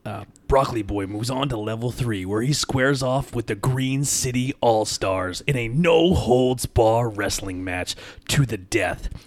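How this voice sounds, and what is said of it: Wrestling announcer voice. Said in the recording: “I did voiceover work for a wrestling company ... my wrestling voice”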